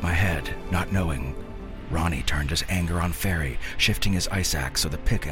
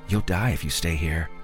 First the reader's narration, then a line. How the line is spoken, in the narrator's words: Fairy said in a flat voice barely heard over the howling wind